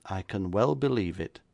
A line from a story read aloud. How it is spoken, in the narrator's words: said my friend calmly